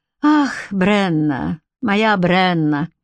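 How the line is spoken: Sighed. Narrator (Russian): вздохнул Энгус

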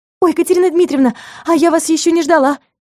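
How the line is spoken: Babbling. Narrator (Russian): Залепетала Алена

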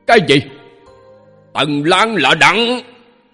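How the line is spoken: Angry voice. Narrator (Vietnamese): Một thanh âm giận dữ vang lên, chính là Cổ Ung của Thanh Hồ Đảo

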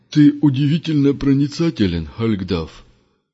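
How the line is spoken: Grumbled mutter. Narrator (Russian): буркнул Бюскермолин

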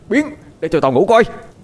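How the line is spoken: Angry loud shout. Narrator (Vietnamese): Bực tức dâng lên, Quân quát lớn

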